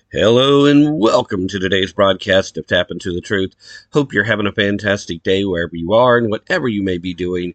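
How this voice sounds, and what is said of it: Voice sounds sick, under the weather. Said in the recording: “as you can probably tell from my voice, still a bit under the weather”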